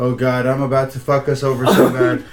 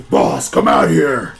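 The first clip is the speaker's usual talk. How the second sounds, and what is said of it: Gruff orc character voice. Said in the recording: “In my best orc voice,”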